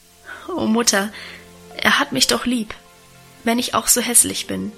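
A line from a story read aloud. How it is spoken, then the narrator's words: Stammering, laughing and crying. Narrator (German): stammelte lachend und weinend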